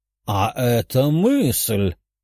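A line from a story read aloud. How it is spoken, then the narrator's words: Emperor bursting into laughter. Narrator (Russian): император расхохотался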